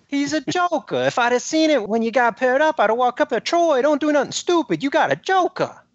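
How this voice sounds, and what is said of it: New York accent impression. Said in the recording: “Great New York accent, too. I liked it. ... Or Northeastern.”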